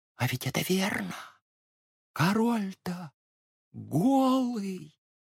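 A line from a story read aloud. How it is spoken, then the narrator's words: Many voices whispering. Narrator (Russian): все стали шепотом повторять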